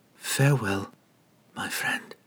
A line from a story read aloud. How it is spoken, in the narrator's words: he whispered into the rubble